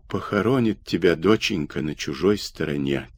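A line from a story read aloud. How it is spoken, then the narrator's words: Quiet weeping. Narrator (Russian): тихо плакала Александра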